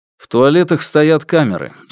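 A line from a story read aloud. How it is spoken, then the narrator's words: Plain. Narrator (Russian): сказал он Люпе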